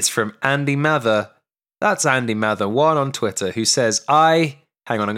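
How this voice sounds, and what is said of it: Usual voice. Nothing is said of it.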